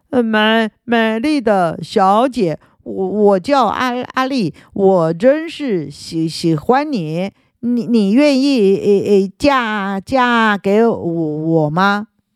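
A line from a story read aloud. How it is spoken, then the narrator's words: Very polite stammering. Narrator (Chinese): 他边说态度客气极了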